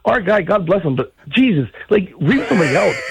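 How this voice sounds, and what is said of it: Strong Wisconsin accent. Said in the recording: “that's an interesting amazing Wisconsin accent.”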